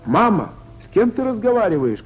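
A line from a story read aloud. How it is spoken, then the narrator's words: Shouting from another room. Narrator (Russian): кричала из соседней комнаты Варя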